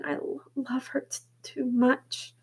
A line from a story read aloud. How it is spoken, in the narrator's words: John whispered